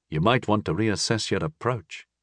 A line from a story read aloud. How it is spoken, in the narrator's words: I said dryly